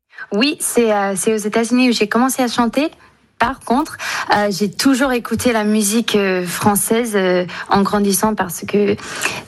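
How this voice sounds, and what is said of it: Slight American accent in French. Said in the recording (French): “un tout petit accent ... vous êtes franco-américaine”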